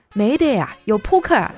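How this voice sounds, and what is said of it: Chongqing dialect accent. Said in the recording (Chinese): “操着一口正宗的重庆口音说”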